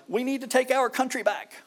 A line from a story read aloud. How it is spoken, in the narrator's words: Cries